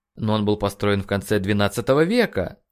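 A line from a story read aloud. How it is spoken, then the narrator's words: Exclamation. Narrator (Russian): воскликнул Нейт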